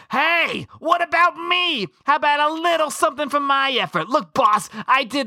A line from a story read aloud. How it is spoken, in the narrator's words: screams